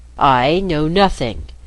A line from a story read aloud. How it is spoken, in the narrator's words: said Marco